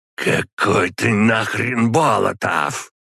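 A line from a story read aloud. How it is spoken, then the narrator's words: Hiss. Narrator (Russian): прошипел Водомир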